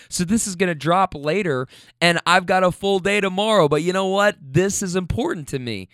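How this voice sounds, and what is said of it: Hoarse, tired voice. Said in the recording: “even when my voice is hoarse, even as I'm sitting here recording this right now”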